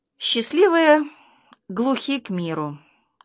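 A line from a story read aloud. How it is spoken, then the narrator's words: Mother's sigh. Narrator (Russian): вздохнула мама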